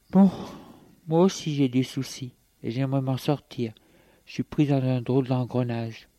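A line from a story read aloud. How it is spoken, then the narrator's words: Sighing. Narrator (French): Elle soupire et lui dit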